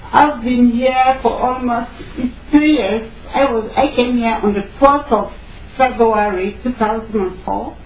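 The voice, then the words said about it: West African accented English. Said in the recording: “I know you are going to have a problem with my accent ... I'm a Cameroonian. I come from West Africa.”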